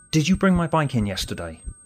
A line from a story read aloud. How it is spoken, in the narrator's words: asked urgently